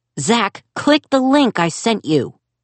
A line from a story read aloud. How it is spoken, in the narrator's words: He yelled over Zack's shrieking